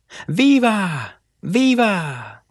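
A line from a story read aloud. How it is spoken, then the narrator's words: Cheering crowd. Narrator (Spanish): gritaron los hombres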